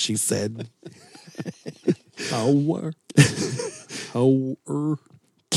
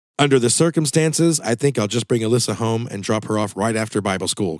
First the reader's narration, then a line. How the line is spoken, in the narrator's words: Candy replied